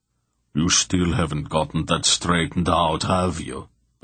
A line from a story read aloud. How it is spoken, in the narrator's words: Barak muttered to Mandorallan